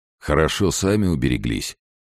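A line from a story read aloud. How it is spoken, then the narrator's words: Plain. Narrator (Russian): сказал другой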